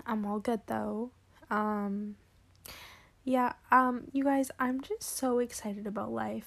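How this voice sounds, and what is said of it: Voice sounds a little weird. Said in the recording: “my voice is a little bit sounds weird”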